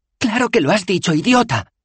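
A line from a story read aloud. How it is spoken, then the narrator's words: Shriek. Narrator (Spanish): chilló Bethan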